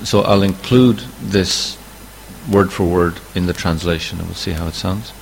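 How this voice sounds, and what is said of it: Slightly indistinct voice from a cold. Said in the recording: “my voice is a little indistinct as well because I have a little cold coming on.”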